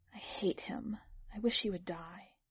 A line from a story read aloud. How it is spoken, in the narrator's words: She said softly